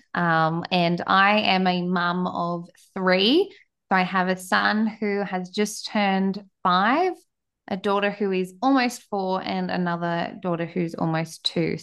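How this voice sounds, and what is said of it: Australian accent. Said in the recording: “as you can tell by my accent, I am down in Australia”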